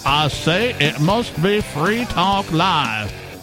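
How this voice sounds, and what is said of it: Exaggerated southern cartoon accent. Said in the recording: “That's my southern accent. My almost nearly a foghorn, leghorn type of accent.”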